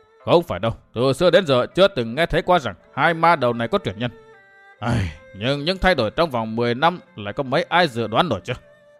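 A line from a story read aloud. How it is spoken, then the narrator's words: Sighing. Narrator (Vietnamese): Trong tiếng thở dài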